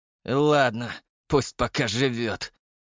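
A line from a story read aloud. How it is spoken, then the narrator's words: Reluctant hoarse rasp. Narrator (Russian): нехотя прохрипел черноволосый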